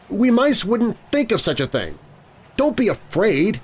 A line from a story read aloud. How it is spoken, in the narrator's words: he pleaded